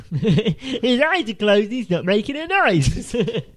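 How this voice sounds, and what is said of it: Imitates another person's voice. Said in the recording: “That's your Sylvester Stallone impression, right? ... It's Ray Romano.”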